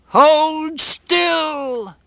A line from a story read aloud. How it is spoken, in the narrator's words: Flag cried at the top of his voice